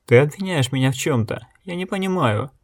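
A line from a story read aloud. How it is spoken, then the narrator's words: Muffled sobbing woman. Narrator (Russian): Женщина закрыла лицо свободной рукой, всхлипнула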